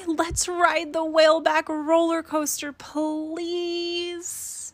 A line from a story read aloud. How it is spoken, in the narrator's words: squealed Rachel excitingly